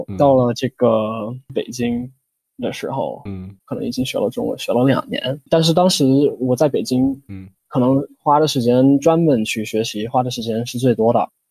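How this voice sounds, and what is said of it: Standard Mandarin blending southern and northern accents. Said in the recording (Chinese): “大家都说我现在完完全全是他们所谓的中的京腔 ... 你你的口音里融合了南方口音和北方口音，但是都特别标准”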